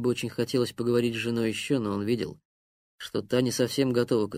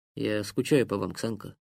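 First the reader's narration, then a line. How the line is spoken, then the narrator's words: Quiet. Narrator (Russian): тихо сказал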